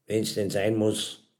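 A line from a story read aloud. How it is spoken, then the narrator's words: Dry reply. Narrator (German): kam es trocken zurück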